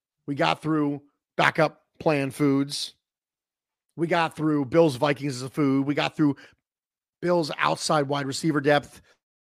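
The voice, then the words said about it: Strained, failing voice. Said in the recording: “my voice is beginning to fail ... I can't talk for 25 minutes in a row”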